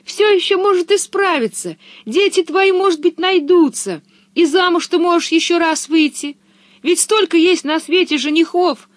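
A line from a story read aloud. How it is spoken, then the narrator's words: Tearful comforting. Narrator (Russian): утешала ее Пеппи сквозь слезы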